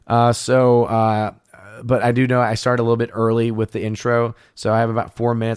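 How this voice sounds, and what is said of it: Tired-sounding voice. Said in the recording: “my voice is definitely a bit on the tired side of things”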